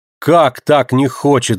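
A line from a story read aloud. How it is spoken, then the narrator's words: Shouting. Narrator (Russian): закричал Лазар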